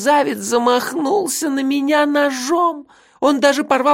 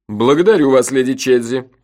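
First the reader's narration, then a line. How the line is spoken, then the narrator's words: Solemn declaration. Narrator (Russian): торжественно заявил Джуфин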